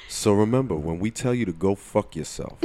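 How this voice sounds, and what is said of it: New Jersey accent. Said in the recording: “I said that in my Jersey accent too”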